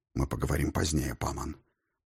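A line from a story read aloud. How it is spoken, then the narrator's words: Whispered. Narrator (Russian): прошептал мой господин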